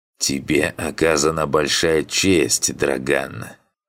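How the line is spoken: Creaky voice. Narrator (Russian): Проскрипела Зерге

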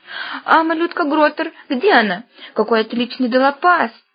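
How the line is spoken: Overexcited fan's shrill squeal. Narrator (Russian): Взвизгнул этот перегревшийся поклонник Драконбола

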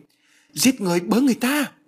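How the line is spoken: Panicked cry. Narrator (Vietnamese): Bà hoảng hốt kêu lên

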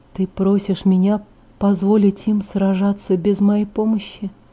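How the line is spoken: Quiet question. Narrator (Russian): тихо спросил

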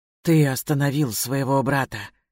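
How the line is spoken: Hoarse. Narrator (Russian): хрипло сказала я

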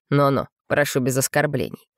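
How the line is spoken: Frowning growl. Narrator (Russian): рыкнул Шатон, нахмурившись

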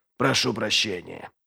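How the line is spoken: Muttered. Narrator (Russian): пробормотал он

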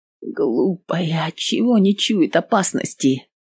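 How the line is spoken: Whispering. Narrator (Russian): шептала Анна

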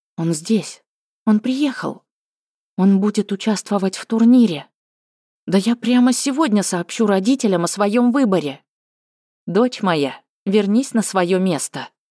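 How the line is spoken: Gentle but displeased command. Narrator (Russian): мягко приказала Тагира, хмурясь все больше

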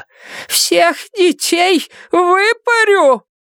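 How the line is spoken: Shouting. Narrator (Russian): Она кричала

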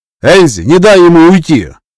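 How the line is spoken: Shouting. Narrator (Russian): крикнул Эсу

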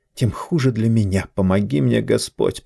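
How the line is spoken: Mutter. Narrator (Russian): пробормотала она

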